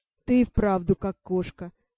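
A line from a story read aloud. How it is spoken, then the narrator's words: Laughing. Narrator (Russian): засмеялся повелитель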